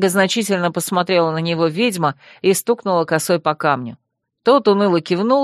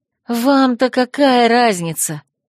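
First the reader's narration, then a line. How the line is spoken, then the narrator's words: Hissed through teeth. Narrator (Russian): сквозь зубы прошипела я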